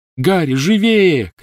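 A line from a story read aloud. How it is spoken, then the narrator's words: Shouted. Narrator (Russian): крикнула Гермиона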